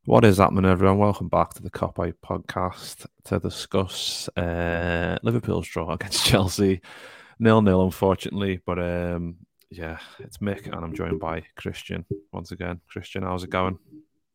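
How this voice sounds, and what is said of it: Sad, low-energy voice. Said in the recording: “You sound really sad there, mate.”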